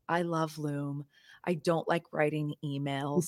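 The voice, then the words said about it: Commercial announcer voice. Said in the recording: “in my commercial voice”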